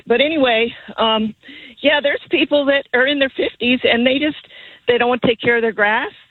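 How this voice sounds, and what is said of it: Slightly out of breath. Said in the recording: “I'm out of breath a little bit”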